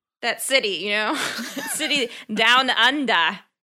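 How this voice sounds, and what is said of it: Terrible put-on Australian accent. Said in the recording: “Can you give me a better Australian accent? ... we're going to settle for that terrible one.”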